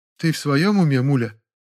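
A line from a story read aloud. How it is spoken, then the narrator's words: Sad question. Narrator (Russian): печально спросила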